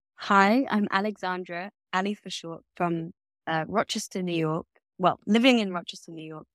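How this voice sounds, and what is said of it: British accent. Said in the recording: “as you can tell by my accent, I'm a transplant to the States from the UK.”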